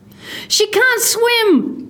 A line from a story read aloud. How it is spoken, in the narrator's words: Grace screamed into the wind